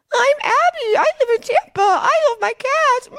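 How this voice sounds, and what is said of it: Exaggerated impression of a friend. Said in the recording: “an exaggerated impression of yourself that you would do about yourself”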